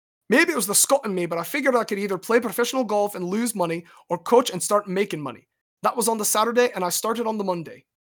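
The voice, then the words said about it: Put-on Scottish accent. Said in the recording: “Let me try and do an accent just for fun ... whether you're Scot”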